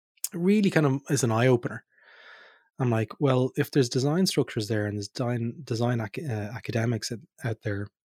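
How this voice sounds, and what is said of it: Hoarse, throaty voice. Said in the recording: “I've got a frog in my throat.”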